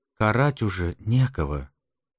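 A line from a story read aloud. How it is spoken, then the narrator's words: Quiet. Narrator (Russian): тихо проговорил Вильбо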